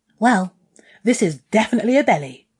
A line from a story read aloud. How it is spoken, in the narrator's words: he laughed